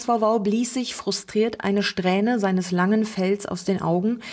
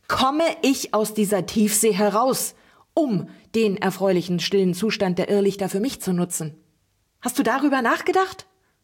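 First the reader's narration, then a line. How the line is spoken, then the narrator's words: Shouting right into ear. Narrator (German): schrie Oleana dem Bänderog direkt ins Ohr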